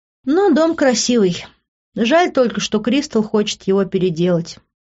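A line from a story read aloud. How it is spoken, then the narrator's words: Sighing. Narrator (Russian): вздохнула она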